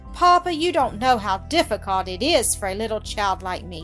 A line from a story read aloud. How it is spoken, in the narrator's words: she sighed